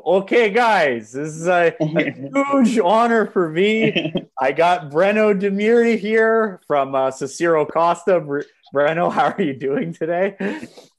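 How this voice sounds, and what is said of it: Imitates another person's voice. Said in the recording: “my Bernardo Faria impression, which is absolutely terrible”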